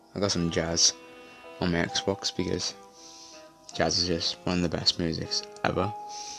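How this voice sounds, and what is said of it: Whispering. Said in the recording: “I'm whispering, and probably can't hear me that well ... I need to be quiet”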